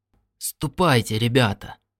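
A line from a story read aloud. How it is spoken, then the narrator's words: Mutter. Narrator (Russian): пробормотал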